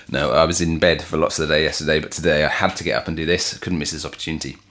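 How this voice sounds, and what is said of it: Deep, rough, sick-sounding voice. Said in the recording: “I brought some man flu into proceedings ... you'd been working on your deep radio voice”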